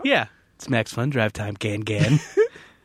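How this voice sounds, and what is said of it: Smoky, sexy voice. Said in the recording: “Can you do it like in an even smokier, sexier voice? ... that's as smoky and sexy as my voice gets”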